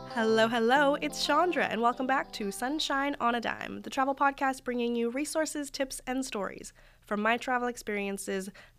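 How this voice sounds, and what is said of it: Slightly congested voice from a cold. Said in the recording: “I don't know if you can hear it in my voice, but I'm just getting over a bit of a cold”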